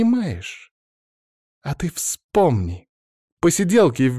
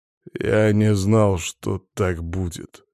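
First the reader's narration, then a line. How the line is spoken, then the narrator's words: Dull, muffled voice. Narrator (Russian): глухо сказал он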